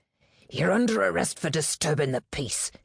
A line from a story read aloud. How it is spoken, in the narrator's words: hissed the officer